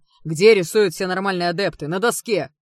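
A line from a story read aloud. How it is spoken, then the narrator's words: Barked. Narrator (Russian): рявкнул магистр Делмер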